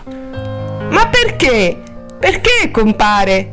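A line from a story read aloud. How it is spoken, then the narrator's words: Troubled whimpering. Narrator (Italian): piagnucolò Helen, turbata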